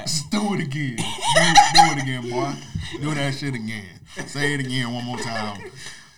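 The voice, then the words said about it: Good impression of a friend. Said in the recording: “You do a good Ryan impression.”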